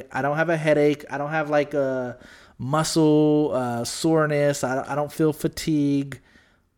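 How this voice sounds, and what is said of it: Congested, scratchy sore-throat voice. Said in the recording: “I have a sore throat right now, and I feel kind of congested ... My throat is a little bit scratchy and I feel congested”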